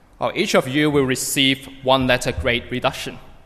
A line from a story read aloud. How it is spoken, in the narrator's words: said the professor